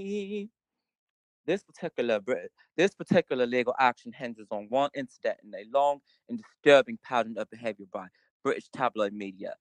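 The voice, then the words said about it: Attempted British accent. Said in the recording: “I won't even try a British accent. Well, maybe I'll, hold on, let me try.”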